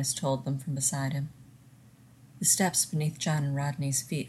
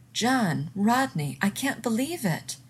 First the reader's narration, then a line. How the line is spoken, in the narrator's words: Weir exclaimed